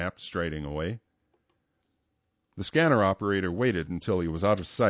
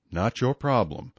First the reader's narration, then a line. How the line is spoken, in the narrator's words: he replied in a querulous voice